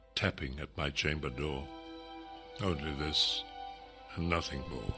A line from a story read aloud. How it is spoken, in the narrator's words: I muttered